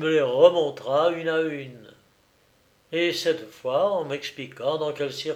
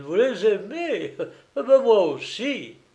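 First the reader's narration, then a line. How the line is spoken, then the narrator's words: Exclamation. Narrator (French): s'écria-t-il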